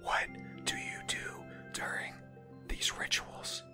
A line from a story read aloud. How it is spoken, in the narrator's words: I whispered